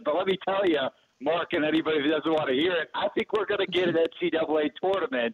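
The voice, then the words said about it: East Coast American accent. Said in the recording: “you better hide that, the East Coast accent.”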